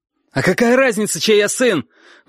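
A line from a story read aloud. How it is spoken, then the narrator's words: Sudden spluttering shout. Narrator (Russian): вдруг закричал Костя, разбрасывая слюну изо рта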